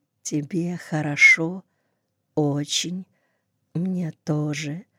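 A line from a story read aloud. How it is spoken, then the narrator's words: Whisper. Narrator (Russian): прошептала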